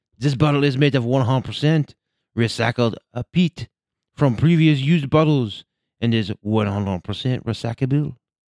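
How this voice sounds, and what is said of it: Bad put-on French accent. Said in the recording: “my bad French accent”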